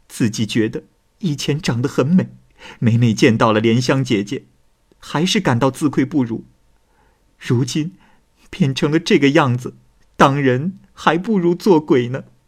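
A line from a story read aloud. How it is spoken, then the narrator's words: Young woman wailing. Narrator (Chinese): 姑娘对着镜子大哭说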